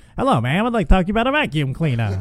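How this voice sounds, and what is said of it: Old-fashioned 1950s salesman accent. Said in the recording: “I like his 1950s accent too.”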